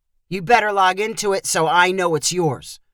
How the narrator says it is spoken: Rich said gruffly

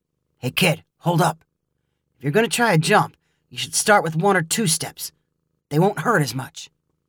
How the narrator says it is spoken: Caleb whisper

